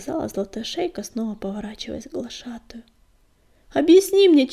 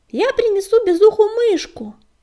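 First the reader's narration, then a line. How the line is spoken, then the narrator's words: Shout while running. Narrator (Russian): На бегу крикнула брату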